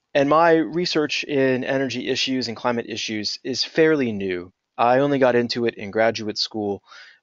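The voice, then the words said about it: American accent. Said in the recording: “I am an American. My accent gives me away.”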